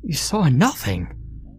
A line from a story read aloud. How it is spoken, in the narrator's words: Ryan cried